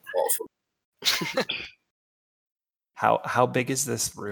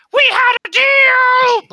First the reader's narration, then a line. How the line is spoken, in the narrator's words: Shmebulok just screams